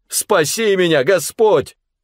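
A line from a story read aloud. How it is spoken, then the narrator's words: Shout. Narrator (Russian): закричал он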